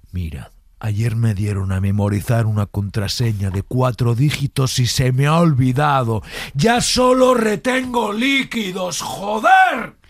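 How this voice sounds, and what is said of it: Whisper rising to angry shout. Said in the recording (Spanish): “la transición del bajo al, al alto, del susurrado este al enfadado”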